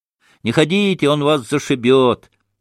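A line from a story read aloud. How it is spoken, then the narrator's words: Warning shout. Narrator (Russian): закричал предупредительно Смуров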